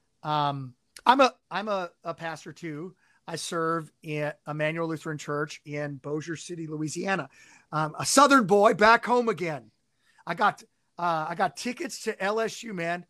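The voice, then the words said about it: Southern Cajun accent. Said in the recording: “See, hear that Cajun accent coming out? ... it's starting to come out.”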